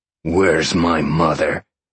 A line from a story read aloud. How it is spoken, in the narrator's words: Sean growled